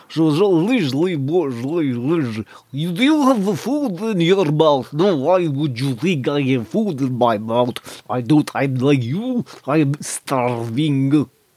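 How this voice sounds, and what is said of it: Eastern European accent, teeth nearly closed. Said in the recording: “The Eastern European accent ... you can almost do it without uh, separating your teeth”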